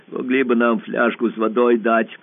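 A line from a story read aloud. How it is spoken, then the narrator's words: Hoarse. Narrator (Russian): сказал хрипло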